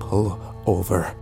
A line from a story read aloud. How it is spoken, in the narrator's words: I said quietly